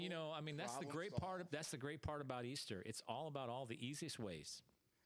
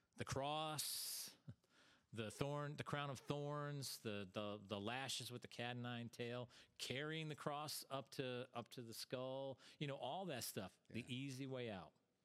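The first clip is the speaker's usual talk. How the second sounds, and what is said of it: Heavily sarcastic delivery. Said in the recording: “that was sarcasm ... Very heavy with sarcasm”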